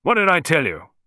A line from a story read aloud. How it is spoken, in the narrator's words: grunted Bonington